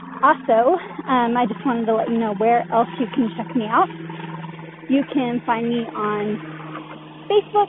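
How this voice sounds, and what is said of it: Out of breath. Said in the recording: “Sorry, I'm out of breath.”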